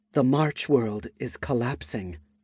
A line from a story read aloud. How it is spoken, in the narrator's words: she said, in a serious tone